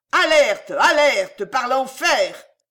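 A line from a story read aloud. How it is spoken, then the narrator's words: Thundering old man. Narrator (French): tonna le vieux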